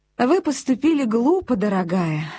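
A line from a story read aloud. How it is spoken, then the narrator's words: Affectionate. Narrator (Russian): ласково сказала Хэтти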